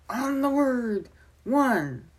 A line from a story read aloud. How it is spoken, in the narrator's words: he called out